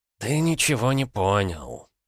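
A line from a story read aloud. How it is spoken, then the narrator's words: Old man's sigh. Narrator (Russian): вздохнул старик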